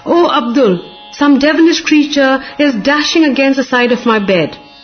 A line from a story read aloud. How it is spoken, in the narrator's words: Baba cried at midnight